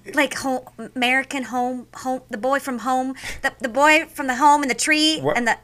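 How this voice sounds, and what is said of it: Sudden put-on twang. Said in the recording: “what's going on with your voice right now that you suddenly have a twang?”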